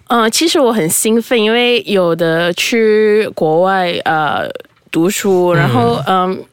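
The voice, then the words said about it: Southern-leaning Chinese accent. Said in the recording (Chinese): “口音呃偏南方口音”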